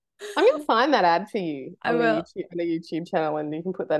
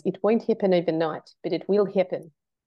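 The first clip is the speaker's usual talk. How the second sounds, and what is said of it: Put-on New Zealand accent. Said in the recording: “my New Zealand accent”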